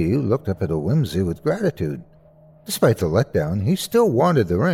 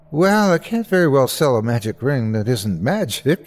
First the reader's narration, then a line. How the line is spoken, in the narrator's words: he laughed